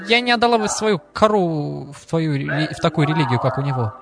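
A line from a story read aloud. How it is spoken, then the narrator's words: Mocking laughing woman. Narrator (Russian): женщину, смеялась надо мной и сказала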